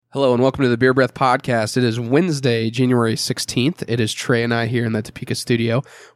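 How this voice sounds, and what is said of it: Sick-sounding voice. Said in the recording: “You might hear it in my voice, ... feeling a little under the weather”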